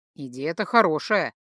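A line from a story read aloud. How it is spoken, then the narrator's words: Snort. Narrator (Russian): хмыкнул Хальдор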